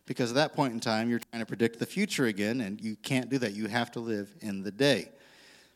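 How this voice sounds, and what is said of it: Dry, not fully recovered voice. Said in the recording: “My voice is not recovered 100%. I am still struggling with it. It's a little bit dry.”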